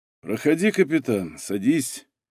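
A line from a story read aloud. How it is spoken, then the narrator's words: Gentle invitation, colonel. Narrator (Russian): мягко пригласил полковник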